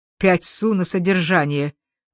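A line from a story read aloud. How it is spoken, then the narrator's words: Sarcastic grumble. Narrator (Russian): буркнул он язвительно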